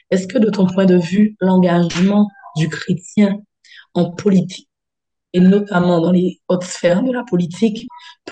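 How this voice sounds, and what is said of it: Hoarse, cracked voice. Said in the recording (French): “pardon, pour ma voix qui est cassée”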